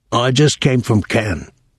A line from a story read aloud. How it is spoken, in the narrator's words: Pinky said thickly